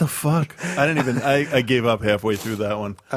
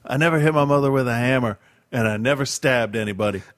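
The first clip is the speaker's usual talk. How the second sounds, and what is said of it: Put-on Southern accent. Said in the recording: “Does he have a southern accent? ... Kind of, yeah.”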